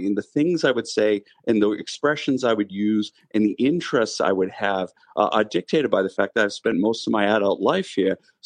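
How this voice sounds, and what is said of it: Strong Boston accent. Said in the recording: “I have a strong Boston accent”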